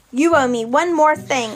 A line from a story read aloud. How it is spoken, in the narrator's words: I told Aries, trying to keep my voice level